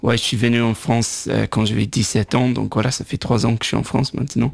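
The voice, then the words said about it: Irish accent speaking French. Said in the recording (French): “je viens de Dublin ... il faut garder l'accent”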